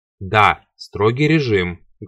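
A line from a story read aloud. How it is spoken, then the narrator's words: Menacing. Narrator (Russian): грозно повторил он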